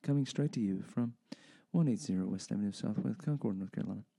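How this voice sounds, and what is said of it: Public radio announcer voice. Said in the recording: “it's NPR voice.”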